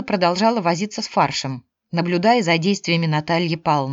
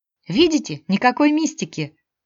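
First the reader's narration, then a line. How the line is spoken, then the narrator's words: Laughing. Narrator (Russian): Мила засмеялась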